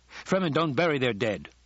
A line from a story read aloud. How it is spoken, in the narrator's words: the men barked